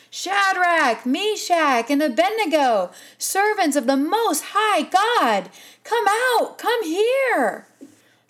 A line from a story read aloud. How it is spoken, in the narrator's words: Nebuchadnezzar, he shouted